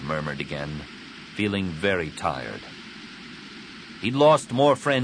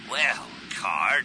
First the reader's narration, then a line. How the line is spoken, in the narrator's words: he growled